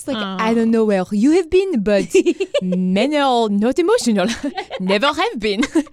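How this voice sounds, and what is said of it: Put-on French accent. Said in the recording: “she's this very French accent ... Actually, that's more of the accent. You're so good.”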